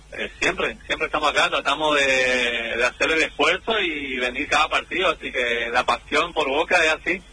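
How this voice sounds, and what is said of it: Non-Rioplatense regional Argentine accent. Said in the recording (Spanish): “te noto alguna tonada, algo ajena a la rioplatense”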